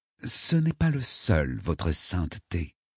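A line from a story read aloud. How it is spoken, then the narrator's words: Murmuring. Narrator (French): murmura le cardinal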